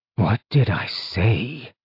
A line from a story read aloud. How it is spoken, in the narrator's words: Zeal asked wearily